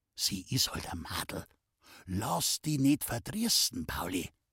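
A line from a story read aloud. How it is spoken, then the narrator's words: Old man whispering in ear. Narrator (German): der alte Lenl, der ihm ins Ohr flüsterte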